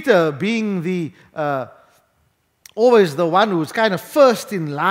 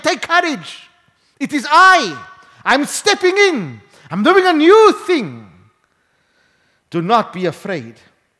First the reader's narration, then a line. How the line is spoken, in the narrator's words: he's shouting and he's saying